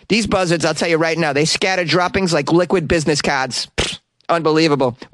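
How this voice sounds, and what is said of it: Put-on Boston accent. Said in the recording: “Why do I have a Boston accent? ... That's because I did your impression.”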